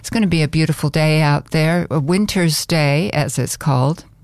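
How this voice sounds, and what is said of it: Northern accent. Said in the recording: “You can probably tell from this accent, I'm from the North Country.”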